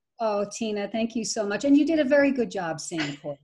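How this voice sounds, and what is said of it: Irish accent. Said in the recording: “say it in her Irish accent ... you're going to love her Irish accent”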